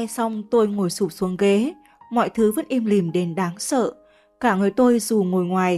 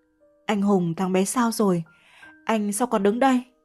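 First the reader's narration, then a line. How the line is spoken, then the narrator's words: Trembling question. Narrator (Vietnamese): Tôi lao về phía anh run rẩy hỏi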